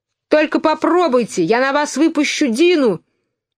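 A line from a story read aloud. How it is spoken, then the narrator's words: Shout at full strength. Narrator (Russian): изо всех сил закричала Алиса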